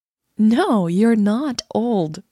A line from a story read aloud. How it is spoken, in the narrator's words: Leah said